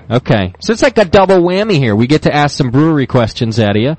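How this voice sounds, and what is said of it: Out of breath, breathless speech. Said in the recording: “I'm still out of breath.”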